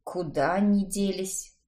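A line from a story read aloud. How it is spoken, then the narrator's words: Puzzled mutter to himself. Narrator (Russian): с недоумением, обращаясь к самому себе, пробормотал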